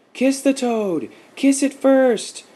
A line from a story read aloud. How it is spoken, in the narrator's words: cried out the children